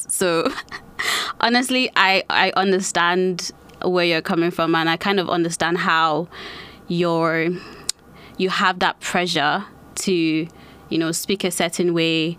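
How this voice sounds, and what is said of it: Hybrid Nigerian-influenced English accent. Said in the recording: “Even though I spent a lot of my life in Nigeria, I've kind of developed this sort of hybrid accent.”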